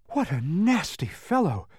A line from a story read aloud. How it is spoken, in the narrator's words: gasped Milo, who was having great difficulty just getting his legs to move